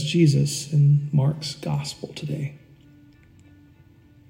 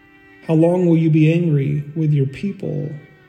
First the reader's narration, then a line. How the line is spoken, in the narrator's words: asked the psalmist